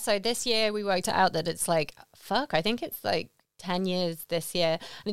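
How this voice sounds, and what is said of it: British accent. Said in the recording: “you say it differently with your British accent”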